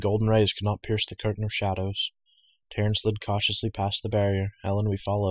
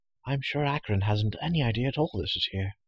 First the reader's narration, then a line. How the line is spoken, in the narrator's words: she whispered